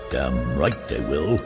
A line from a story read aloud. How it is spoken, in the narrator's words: muttered Lupov